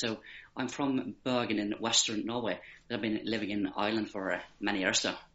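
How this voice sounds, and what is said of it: Norwegian accent with Irish twang. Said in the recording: “Irish twang as well as the Norwegian accent”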